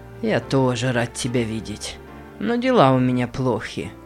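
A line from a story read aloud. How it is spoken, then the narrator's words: Hoarse reply. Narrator (Russian): хрипло ответил Нейт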